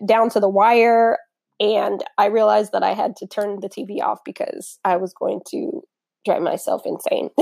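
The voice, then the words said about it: Slightly raspy voice. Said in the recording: “My voice is a little raspy because I've been up all night”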